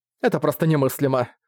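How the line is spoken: Snorting. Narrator (Russian): фыркнула Тайвин

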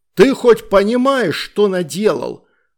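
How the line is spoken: Yelling. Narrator (Russian): орал он

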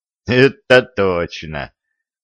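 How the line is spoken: Grunt. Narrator (Russian): хмыкнул царский сплетник

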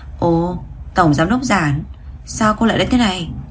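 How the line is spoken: Relaxed, smiling. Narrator (Vietnamese): Thẩm Phỉ không hề đề phòng chút nào, mỉm cười rồi nói

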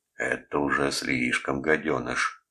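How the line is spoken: Growling. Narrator (Russian): прорычал кто-то

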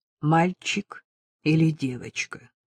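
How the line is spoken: Even level voice. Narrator (Russian): задал его ровным голосом

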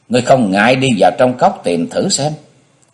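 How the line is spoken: Calm smiling monk. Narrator (Vietnamese): Xung đại sư mỉm cười, khoanh chân ngồi xuống, chắp tay trước ngực rồi nói

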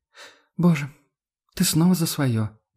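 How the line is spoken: Sighing. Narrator (Russian): вздохнула она

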